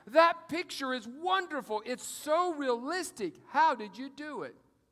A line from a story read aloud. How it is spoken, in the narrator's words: Kingsley exclaimed